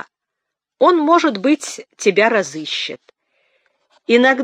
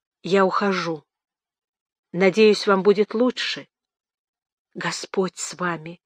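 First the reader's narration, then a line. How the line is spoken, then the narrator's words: Halting whisper. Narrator (Russian): прошептала, не находя слов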